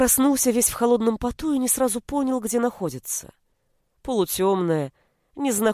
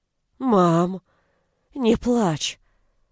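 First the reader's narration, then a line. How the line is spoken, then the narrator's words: Weak rasp. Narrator (Russian): Прохрипев это, Сашка, тут же почувствовав слабость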